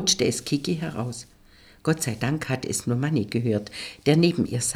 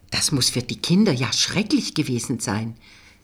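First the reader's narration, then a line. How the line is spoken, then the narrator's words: Hissing woman. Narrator (German): zischte sie Manni zu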